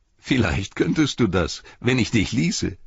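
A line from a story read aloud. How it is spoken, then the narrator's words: Laughing. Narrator (German): sagte Pippin lachend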